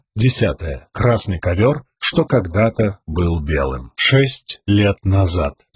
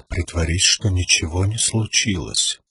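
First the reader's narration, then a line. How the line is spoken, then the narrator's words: Father whispering. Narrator (Russian): прошептал отец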